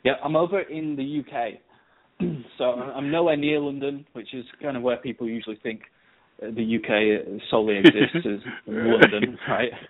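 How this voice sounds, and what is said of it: Northern English Leeds accent. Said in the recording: “you might be able to tell by my accent, it's not quite how you hear in the movies. I'm not the smooth, dashing, sort of posh ... When us guys from up north, we have a bit of a different accent, and I've often been told that I sound Scottish ... that's from Leeds, Leeds Bradford area”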